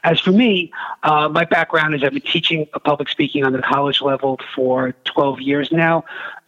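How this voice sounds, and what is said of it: Brooklyn New York accent. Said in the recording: “Brooklyn, New York. In case you couldn't tell from my accent, that's where I'm from.”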